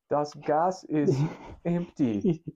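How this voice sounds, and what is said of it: Put-on German accent. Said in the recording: “Something with a German accent.”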